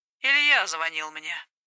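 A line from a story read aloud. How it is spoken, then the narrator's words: Nasty hungover voice. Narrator (Russian): доложился Гарик противным голосом, намекающим на его глубокое похмелье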